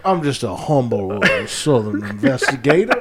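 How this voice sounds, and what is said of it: Daniel Craig's hammy Bayou Southern accent. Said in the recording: “Daniel Craig just fucking hamming it up ... his Bayou accent”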